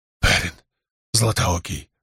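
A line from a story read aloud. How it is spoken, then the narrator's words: Breathless wounded man rasping. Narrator (Russian): задыхаясь, прохрипел раненый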